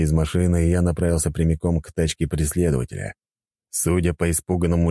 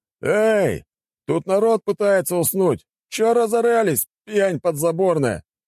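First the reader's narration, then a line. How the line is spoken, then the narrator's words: Workman shouting. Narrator (Russian): крикнул какой-то работяга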